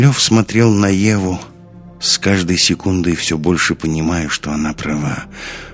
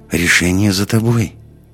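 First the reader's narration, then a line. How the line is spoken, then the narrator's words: Soft. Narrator (Russian): мягко сказала она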